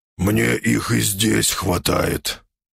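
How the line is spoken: Hoarse croak. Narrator (Russian): прохрипел Грым

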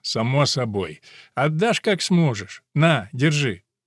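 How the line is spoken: Laughing. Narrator (Russian): посмеялся и сказал

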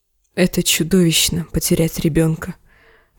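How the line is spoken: Whisper to herself. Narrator (Russian): прошептала она больше себе, чем отцу

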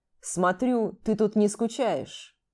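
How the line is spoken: Low drawling voice. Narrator (Russian): Низким тягучим голосом проговорил он

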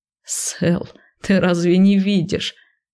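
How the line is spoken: Explaining after laughter. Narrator (Russian): отсмеявшись, пояснил он

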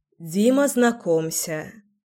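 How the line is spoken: Sighing. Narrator (Russian): вздохнула Леся

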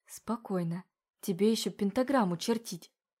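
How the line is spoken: Whisper under breath. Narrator (Russian): прошептала она себе под нос

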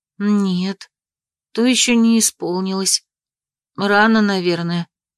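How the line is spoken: Sighing. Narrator (Russian): вздохнула Мира

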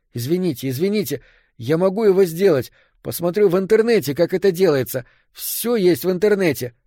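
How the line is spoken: Nonstop babbling. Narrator (Russian): лепетал я и, казалось, не мог остановиться

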